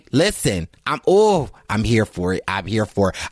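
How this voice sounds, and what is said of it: Loud, excited, near-screaming voice. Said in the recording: “I'm sorry if I'm screaming you up”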